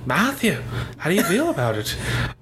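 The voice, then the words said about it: Imitation sounding vaguely Irish. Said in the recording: “That was like Irish.”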